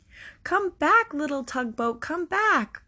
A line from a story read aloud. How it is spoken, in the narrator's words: cried the little boy